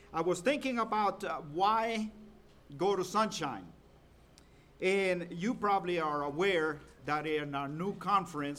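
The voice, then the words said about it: Salvadoran-influenced accent. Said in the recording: “I have a little different accent than most people that come from Georgia. Not everybody in Georgia speaks like I do”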